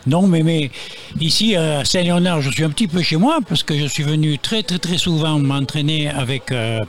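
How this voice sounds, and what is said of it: Marseille French accent. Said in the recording (French): “vous l'avez entendu à son accent, ... c'est le Marseillais”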